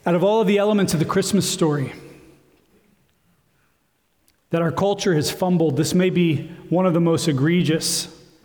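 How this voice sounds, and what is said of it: Hoarse, strained, fading voice. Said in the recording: “I'm in the process of losing my voice, so I'm trying to nurture it through this.”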